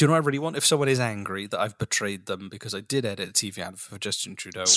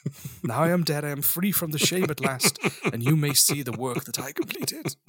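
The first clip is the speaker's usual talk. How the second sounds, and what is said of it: Put-on old man voice. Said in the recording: “is this your old man voice, or is this you after a couple of whiskeys? ... That's your old man voice.”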